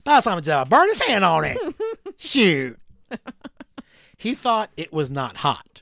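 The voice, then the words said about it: Put-on Southern American accent. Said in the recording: “I felt like it needed some southern accent... Because I figured it felt very southern.”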